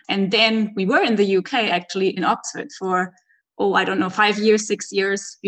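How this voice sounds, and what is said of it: German accent. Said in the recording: “She grew up in Germany ... her accent”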